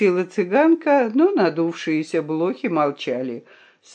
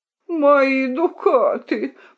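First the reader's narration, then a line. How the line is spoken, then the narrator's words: Moan. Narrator (Russian): простонал козел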